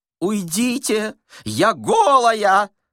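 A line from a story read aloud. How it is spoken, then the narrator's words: Shouting. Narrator (Russian): закричал третий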